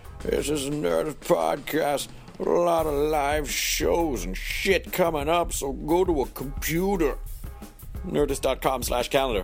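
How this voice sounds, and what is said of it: Crusty, scratchy character voice. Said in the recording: “My voice is a little scratchy ... I like to do this voice a little bit because it sounds really crusty ... I'm done with this character”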